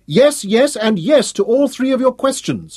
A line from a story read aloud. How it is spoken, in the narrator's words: grinned triumphantly, as she teased him